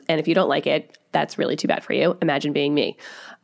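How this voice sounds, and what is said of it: Sick, congested voice. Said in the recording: “a gang of germs, which I'm sure that everyone can tell by the way that my voice sounds.”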